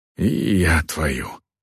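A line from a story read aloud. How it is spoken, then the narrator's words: Sighed. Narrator (Russian): вздохнул Варк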